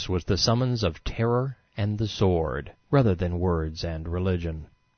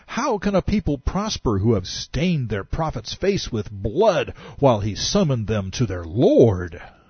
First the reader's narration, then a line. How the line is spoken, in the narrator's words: Muhammad cried out